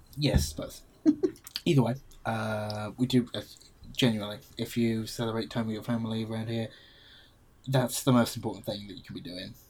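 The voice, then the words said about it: English accent. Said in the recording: “The English accent or my contempt and sarcasm? ... Both.”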